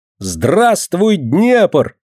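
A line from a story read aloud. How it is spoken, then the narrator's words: Cheerful, ringing shout. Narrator (Russian): весело сказала она и звонко крикнула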